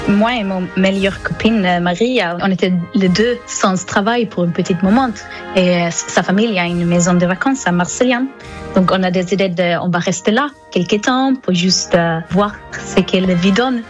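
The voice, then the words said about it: Slight Swedish accent in French. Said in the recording (French): “vous avez un petit accent ... je viens de Suède”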